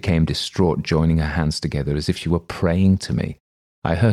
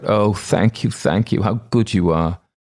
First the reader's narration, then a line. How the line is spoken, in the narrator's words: She cried out